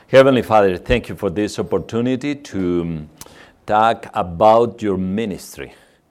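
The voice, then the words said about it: Mexican Spanish accent. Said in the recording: “As you can notice, for our German accent, we are from Mexico... you should stand before this accent.”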